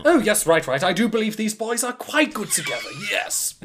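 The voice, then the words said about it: Exaggerated British accent. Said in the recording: “I also spoke in a very exaggerated British accent”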